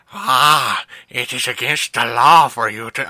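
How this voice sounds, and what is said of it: Adam Sandler-style character voice. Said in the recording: “why are you talking like that? ... he's an Adam Sandler character.”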